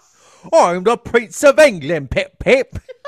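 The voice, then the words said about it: Terrible fake British accent. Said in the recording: “really terrible British accent ... he sounded like Dick Van Dyke and Mary Poppins. That was not a good accent.”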